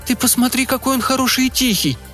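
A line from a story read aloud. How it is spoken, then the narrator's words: Exclaiming. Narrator (Russian): воскликнула она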